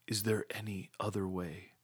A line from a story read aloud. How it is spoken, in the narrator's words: He asked in a pitiful whisper